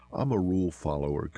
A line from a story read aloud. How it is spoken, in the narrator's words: Gomez said